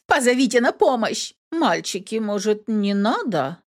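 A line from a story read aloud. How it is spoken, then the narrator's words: Uncertain girl's question. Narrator (Russian): неуверенно спросила девушка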